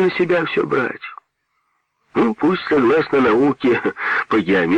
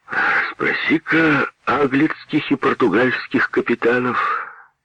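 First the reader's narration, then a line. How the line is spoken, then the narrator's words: Thoughtful. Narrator (Russian): задумчиво сказал Петр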